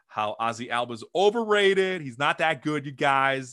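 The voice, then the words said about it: Weak put-on Alabama accent. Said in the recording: “that's my awful Sean... my Alabama accent's not very good... still not on”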